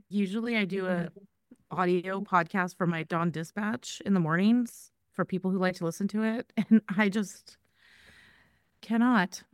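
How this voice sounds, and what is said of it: Tired, sore-throated voice. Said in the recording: “I am so tired. My throat hurts. So if I sound weird,... I'm going to try and save my voice”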